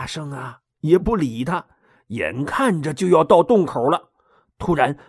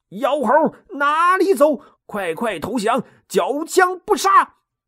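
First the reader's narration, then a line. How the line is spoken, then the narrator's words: Shouting while chasing. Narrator (Chinese): 二郎神 边追边喊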